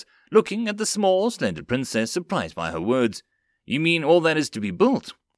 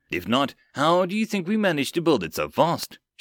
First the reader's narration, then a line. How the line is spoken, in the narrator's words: Shireen giggled